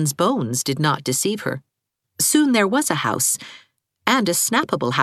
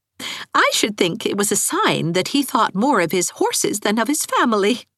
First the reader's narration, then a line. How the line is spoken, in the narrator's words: laughed Anne